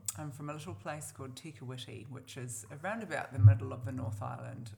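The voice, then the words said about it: New Zealand accent. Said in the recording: “If you can't tell what accent that is, you're definitely a Kiwi.”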